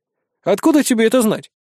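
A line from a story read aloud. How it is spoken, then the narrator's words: Scoffing. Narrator (Russian): хмыкнул я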